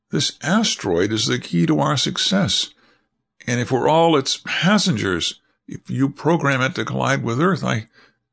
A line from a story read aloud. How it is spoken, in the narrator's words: pleaded Jean